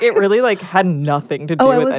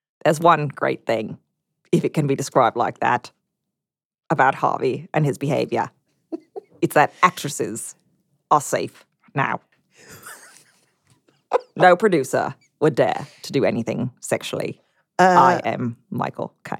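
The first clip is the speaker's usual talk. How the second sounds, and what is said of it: Michael Caine impression. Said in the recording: “Here's some more accent work for you from Michael Caine.”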